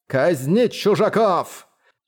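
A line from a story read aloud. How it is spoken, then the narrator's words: Thundering voice. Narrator (Russian): Эти слова прогремели в головах всех лордов горы морей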